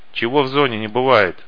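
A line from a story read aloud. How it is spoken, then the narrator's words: Grim smirk. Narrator (Russian): мрачно ухмыльнулся проводник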